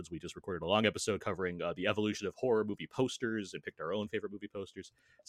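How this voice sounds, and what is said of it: Polished radio-announcer voice. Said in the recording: “I'm loving his voice. What a radio voice.”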